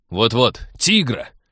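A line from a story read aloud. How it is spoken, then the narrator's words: Angry. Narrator (Russian): сердито подхватил Станислав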